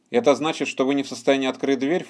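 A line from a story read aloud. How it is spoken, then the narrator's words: Scornful snort. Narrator (Russian): фыркнул генерал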